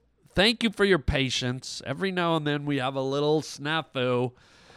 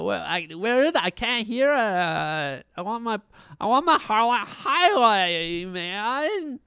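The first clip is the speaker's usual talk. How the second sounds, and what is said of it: Annoying character voice. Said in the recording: “annoying character voice”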